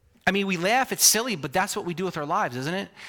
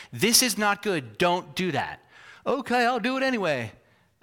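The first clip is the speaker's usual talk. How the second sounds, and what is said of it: Put-on southern accent. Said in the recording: “I don't know why I'm doing a southern accent.”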